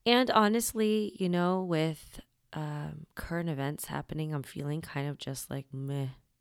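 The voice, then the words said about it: Voice sounds a little weird. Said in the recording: “my voice is a little weird today. The allergies are doing its fuckery”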